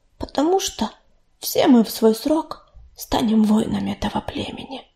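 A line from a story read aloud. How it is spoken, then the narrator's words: Whispering. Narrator (Russian): прошептала Листочка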